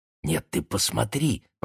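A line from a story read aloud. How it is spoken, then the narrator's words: Whisper. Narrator (Russian): прошептала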